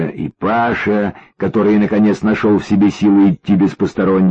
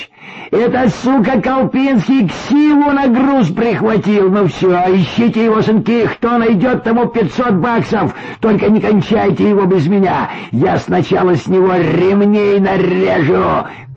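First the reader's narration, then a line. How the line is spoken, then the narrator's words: Shouted. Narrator (Russian): крикнул он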